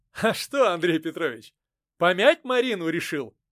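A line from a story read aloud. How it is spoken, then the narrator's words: Laughing. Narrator (Russian): рассмеялся Голицын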